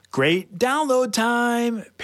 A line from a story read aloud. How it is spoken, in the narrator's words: Paige yelled